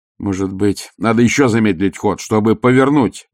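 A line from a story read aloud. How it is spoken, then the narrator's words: Exclaimed. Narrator (Russian): воскликнул астронавигатор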